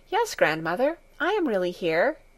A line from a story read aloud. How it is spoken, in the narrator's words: answered in a reassuring voice